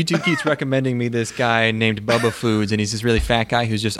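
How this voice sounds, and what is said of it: Usual voice. Nothing is said of it.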